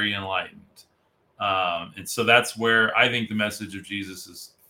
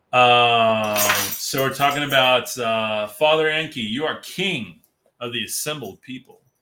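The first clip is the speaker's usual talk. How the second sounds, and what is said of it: Dramatic movie-trailer voice. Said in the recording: “I'll do the movie voice.”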